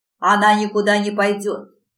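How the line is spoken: Barked. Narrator (Russian): рявкнул он

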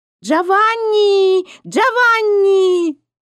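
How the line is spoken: Loud calling. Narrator (Russian): какая-то женщина громко звала

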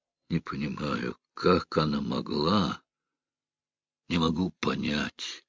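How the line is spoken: Muttering to himself. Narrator (Russian): Стив почувствовал тошноту, пробормотал как бы про себя

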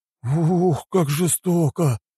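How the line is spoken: Breathless exclamation. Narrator (Russian): выдохнули они

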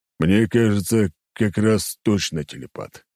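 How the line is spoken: Snort. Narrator (Russian): хмыкнул

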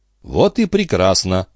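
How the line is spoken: Calm reply. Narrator (Russian): спокойно ответил Трегомен

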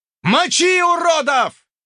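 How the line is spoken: Yelled. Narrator (Russian): заорал игрок

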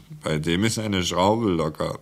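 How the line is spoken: Laughing remark. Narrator (German): meinte Claude lachend

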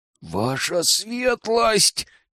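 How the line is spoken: Witch's quiet hiss. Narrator (Russian): тихо прошипела ведьма

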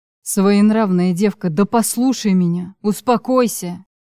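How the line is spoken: Growling. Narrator (Russian): Прорычал он мне в лицо

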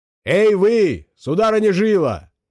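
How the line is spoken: Shouting. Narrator (Russian): крикнул он

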